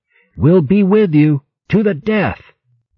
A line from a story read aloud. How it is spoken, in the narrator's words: Denno spoke for every beast as he called out